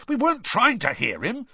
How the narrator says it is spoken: said Ron indignantly

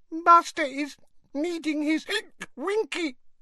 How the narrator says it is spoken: whimpered the elf

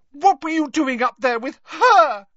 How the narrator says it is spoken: shrieked Lavender Brown

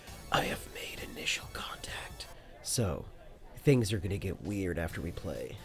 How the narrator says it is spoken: whispers in your ear

